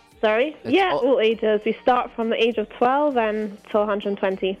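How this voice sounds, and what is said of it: English accent. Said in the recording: “England, you know? ... I love her accent.”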